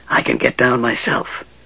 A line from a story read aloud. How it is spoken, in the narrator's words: the mage hissed